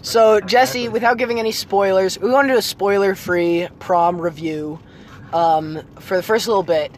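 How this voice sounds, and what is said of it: Sore, strained voice. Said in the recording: “As you can hear, my voice is a little sore. My throat is a little sore.”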